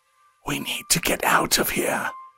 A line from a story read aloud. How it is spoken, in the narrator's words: he whispered, warm lips pressed against her ear